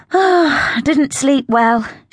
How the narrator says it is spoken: she sighed

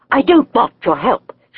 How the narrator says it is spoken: she snapped

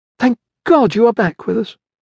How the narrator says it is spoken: exclaimed, as soon as she saw face

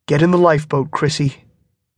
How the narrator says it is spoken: he said

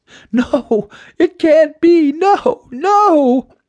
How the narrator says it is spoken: Sparkle Girl cried out

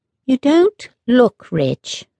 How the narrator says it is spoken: they said slowly, and in as polite a voice as possible

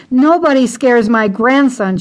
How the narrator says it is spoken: screamed over and over

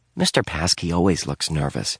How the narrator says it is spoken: Dink whispered back

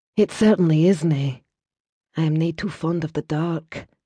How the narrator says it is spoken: added softly

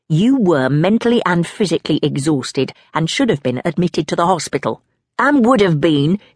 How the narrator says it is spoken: adds hotly

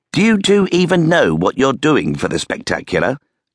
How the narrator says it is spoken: Colby asked

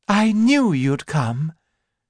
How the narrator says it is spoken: said in a cheerful voice

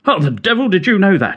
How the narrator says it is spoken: he blurted

